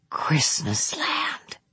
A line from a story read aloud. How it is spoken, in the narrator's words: Bing whispered